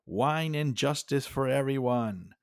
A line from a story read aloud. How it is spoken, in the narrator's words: looked at everyone and shouted